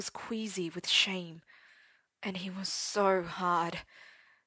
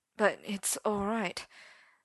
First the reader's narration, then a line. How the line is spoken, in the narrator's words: Arthur panted into his ear